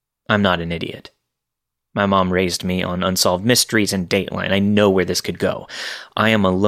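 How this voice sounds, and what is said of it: Usual voice. Nothing is said of it.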